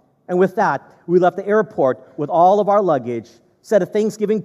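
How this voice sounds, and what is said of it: Usual voice. Nothing is said of it.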